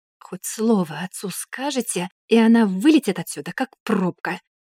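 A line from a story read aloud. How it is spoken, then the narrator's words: Hissing threatening whisper. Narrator (Russian): свистящим шепотом пригрозил друзьям Альберт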